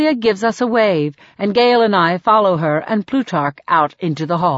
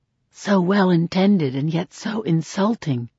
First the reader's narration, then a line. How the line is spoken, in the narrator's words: Gale whispers in my ear